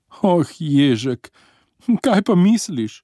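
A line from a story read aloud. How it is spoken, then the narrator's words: Distressed mother exclaiming. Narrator (Slovenian): je vzkliknila uboga mati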